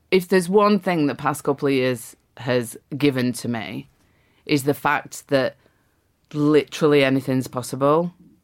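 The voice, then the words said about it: Speaks with a noticeable accent. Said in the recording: “my accent? ... Yes, it's a lovely accent.”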